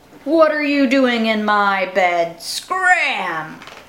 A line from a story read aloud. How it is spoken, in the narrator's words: a big, deep, growly voice said